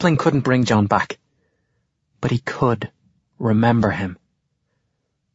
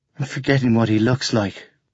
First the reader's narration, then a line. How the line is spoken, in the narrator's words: the boy says huskily